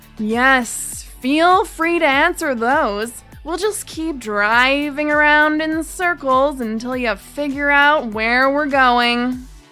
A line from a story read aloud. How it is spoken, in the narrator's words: the taxi driver said, sarcastically